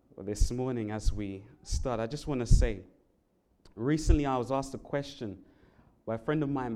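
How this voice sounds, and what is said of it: English London accent. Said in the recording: “as you probably could tell from my accent, I am not from Hawaii... and not from America... I'm from the um, country of England, London, England in particular”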